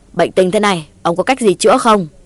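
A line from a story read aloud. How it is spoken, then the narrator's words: Asking after shouting. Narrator (Vietnamese): Chử Cao Sơn quát tháo một hồi hỏi cụ Tà Ao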